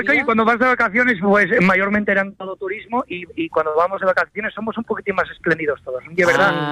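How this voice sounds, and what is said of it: Asturian Spanish accent. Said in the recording (Spanish): “el acento asturiano y es normal que me salga”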